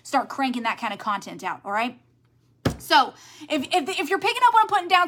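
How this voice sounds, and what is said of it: Talking very fast. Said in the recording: “I know I'm talking really fast,”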